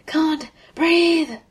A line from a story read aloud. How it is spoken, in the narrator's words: Thor pounces on Tony and keeps him on the ground with the weight of his body, ignoring him wheezing